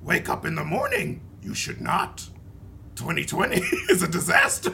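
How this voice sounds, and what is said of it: Yoda character voice impression. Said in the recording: “That's a good impression ... Exceeded expectations on the Yoda impression. You all committed very well.”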